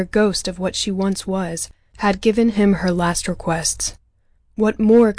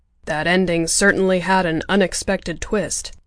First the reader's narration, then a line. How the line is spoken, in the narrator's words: Father grumbled